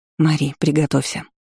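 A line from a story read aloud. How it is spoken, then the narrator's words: Whisper. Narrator (Russian): прошептала сестра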